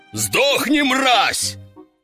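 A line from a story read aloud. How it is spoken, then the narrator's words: Roared. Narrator (Russian): взревел он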